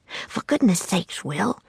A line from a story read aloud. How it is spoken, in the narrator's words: he said in a frantic whisper